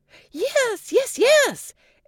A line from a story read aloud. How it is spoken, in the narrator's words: exclaimed Cinderella